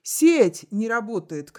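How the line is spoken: Shouted. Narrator (Russian): крикнул Арнольд

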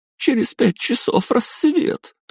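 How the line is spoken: Thin whiny girl's drawl. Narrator (Russian): тоненьким плаксивым голоском протянула одна из девушек

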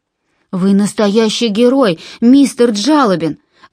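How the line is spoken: Exclaiming. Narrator (Russian): воскликнул Джон

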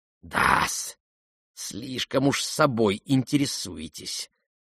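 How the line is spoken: Hissing. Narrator (Russian): прошипел Лебедев

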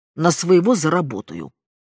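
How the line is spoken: Snapping retort. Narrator (Russian): огрызнулась мать

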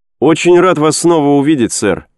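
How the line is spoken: Exclamation. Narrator (Russian): воскликнул он

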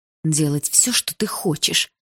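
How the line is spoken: Through gritted teeth. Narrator (Russian): сквозь зубы проговорила я

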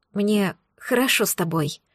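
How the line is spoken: Confiding female whisper. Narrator (Russian): доверительно шепнула

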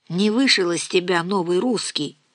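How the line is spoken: Sighing, summing up. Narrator (Russian): вздохнула Нина, подводя итог

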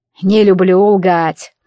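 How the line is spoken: Feigned sigh. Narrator (Russian): притворно вздохнул демон

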